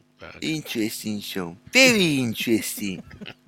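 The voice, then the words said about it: Put-on accent. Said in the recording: “I thought you were going to do the accent.”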